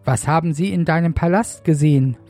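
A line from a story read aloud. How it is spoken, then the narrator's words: Plain question. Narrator (German): fragte Jesaja weiter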